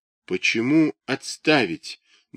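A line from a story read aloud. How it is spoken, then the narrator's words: Trembling question. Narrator (Russian): дрогнувшим голосом спрашивает Сущение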